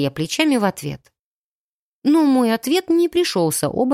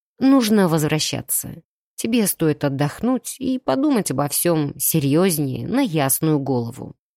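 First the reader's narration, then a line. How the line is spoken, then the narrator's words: Muffled remark. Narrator (Russian): глухо заметил он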